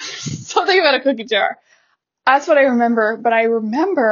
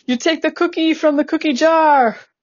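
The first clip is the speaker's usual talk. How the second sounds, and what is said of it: Attempted Jean Chrétien impression, sounds Australian. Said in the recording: “I can't do accents, so I'm not even going to try. And if I do, it's going to sound Australian”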